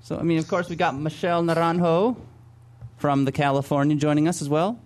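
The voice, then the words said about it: Spanish accent with rolled trill. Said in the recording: “Oh, that was such a nice trill there on ... Naranjo. ... Your Spanish accent. You've been working on that, haven't you?”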